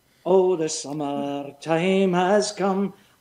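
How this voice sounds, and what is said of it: Sung line in Scottish accent. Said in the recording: “if I was to sing a Scottish ballad to you, ... I would have to think about my accent.”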